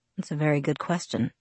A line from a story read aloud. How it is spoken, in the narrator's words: he muttered, so quietly that I wondered if he was talking to himself